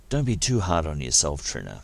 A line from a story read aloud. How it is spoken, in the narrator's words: Dax said in a conciliatory tone